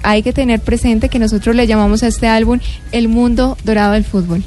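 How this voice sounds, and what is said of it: Polished radio announcer voice. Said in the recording (Spanish): “Y esa voz ... Tiene voz de locutora.”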